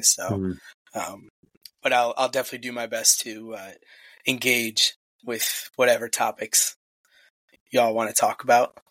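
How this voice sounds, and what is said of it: Rough, bad-sounding voice. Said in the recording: “the best my voice has sounded since Tuesday... As bad as it still sounds... start breaking up even more”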